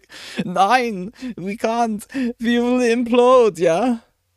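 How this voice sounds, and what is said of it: Put-on German accent. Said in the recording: “I do like my German accent.”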